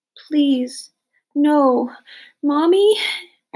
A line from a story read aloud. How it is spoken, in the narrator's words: I cried